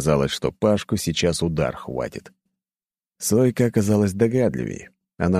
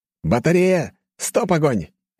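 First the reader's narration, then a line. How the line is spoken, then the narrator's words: Barked command. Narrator (Russian): рявкнул я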